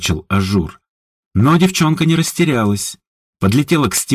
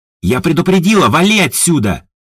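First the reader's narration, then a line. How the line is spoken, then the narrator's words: Defiant girl shouting. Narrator (Russian): С вызовом прокричала девчонка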